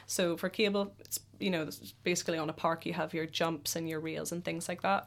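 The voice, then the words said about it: Irish accent. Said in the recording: “Fabulous Irish accent.”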